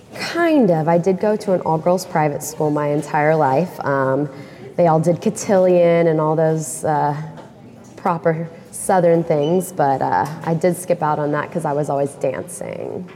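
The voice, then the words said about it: Mild Southern American accent. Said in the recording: “Where does your accent come from? ... Oh, you picked up on it. From Memphis, Tennessee, born and raised. Though I did try to get rid of my accent, so whatever's left, you can only imagine how much stronger it used to be.”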